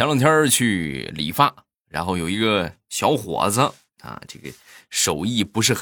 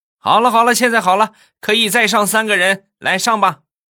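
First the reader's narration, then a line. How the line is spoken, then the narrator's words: Shouting to crowd. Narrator (Chinese): 师傅冲着那些等车的人就喊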